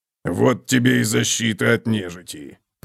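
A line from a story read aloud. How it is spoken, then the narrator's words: Grumbling. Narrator (Russian): проворчал Готрек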